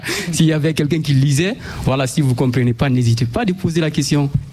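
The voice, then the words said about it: Noticeable non-native French accent. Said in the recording (French): “j'ai un accent un peu bizarre”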